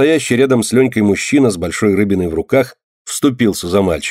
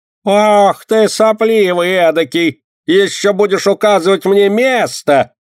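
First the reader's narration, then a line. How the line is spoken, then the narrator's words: Yelling market woman. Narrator (Russian): заорала торговка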